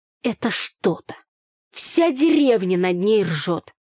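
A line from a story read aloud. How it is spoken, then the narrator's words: Muttered through gritted teeth. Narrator (Russian): сквозь зубы проговорила Таня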